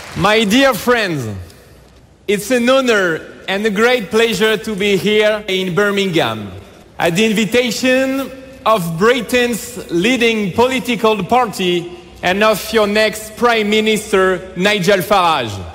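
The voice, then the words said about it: English with slight French accent. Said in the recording (Dutch): “Een beetje dat Franse accent. Een beetje.”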